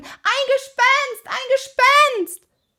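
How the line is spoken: High-pitched scream. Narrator (German): schrie in den höchsten Tönen

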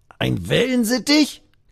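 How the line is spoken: Croaking, nearly choking. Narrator (German): krächzt der andere und verschluckt sich dabei fast

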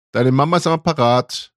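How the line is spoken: Calling out to another room. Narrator (German): rief Annas Mutter ins Kinderzimmer

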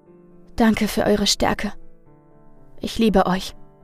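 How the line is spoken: Weak but convinced. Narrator (German): sagte schwach und doch voller Überzeugung

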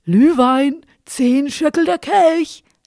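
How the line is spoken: Drunken slurring. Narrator (German): lallte

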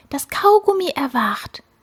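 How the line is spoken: Frightened whisper. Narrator (German): flüsterte die Fliege erschrocken

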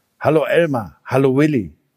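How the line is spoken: Plain. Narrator (German): sagte der Elefant

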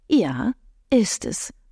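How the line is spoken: Sigh. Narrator (German): seufzte Beatrice

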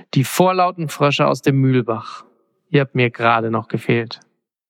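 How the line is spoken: Sighing. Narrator (German): seufzte Orest

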